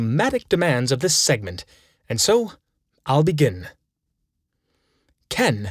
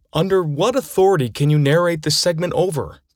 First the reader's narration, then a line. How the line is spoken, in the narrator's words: cried he, still rudely